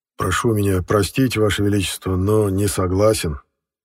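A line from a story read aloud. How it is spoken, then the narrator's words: Grim exhale. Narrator (Russian): мрачно выдохнул Эссен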